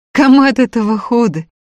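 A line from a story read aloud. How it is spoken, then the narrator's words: Laughing. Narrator (Russian): смеялась Варя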